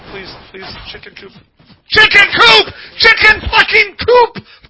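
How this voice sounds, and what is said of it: Yelling. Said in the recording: “We're yelling”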